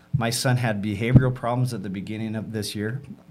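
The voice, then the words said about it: Emotional, voice breaking. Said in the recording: “Sorry, I'm getting emotional.”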